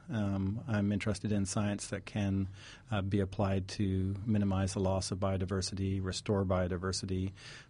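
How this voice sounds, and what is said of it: Canadian accent with British, Southern traces. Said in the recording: “that's a Canadian accent, I hear, with something else underneath. ... it's Canadian with a bit of British and now a slight twang from eastern North Carolina, so it's a melange.”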